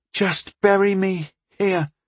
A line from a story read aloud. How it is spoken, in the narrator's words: she begged with adolescent exaggeration